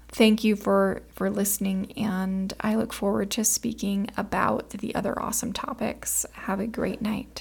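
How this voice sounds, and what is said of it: Tired late-night voice. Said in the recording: “This one is a little bit later night recording ... I'm staying up a little bit later recording this, and I can think you can tell in my voice”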